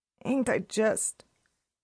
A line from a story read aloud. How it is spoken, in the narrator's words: she said in a hoarse voice